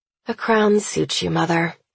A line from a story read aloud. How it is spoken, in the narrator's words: I sigh